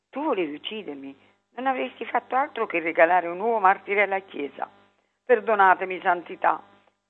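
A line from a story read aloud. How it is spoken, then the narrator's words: Pleading. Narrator (Italian): implorò Bruno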